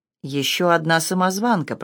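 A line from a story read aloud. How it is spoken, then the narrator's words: Muttering, breaking off. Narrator (Russian): пробормотала Джейн, но осеклась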